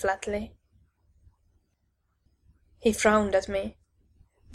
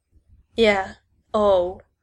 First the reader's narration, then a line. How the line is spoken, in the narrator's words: I said sarcastically